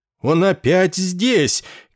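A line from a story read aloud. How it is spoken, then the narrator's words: Fearful yelling. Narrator (Russian): как бы заразившись его страхом, заорал пациент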